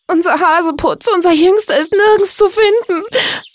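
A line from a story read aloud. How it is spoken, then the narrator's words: Sobbing. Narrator (German): schluchzte Frau Hase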